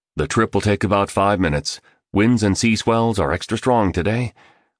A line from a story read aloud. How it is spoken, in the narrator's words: spoke, voiced curtly